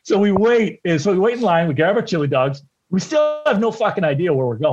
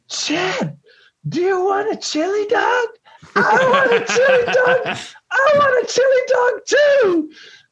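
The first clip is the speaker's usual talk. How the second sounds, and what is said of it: High-pitched voice like puberty. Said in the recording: “doesn't have a very high voice. He goes back to puberty.”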